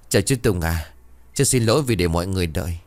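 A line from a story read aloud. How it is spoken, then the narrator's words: Smiling polite voice. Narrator (Vietnamese): Thanh Hải mỉm cười rồi bảo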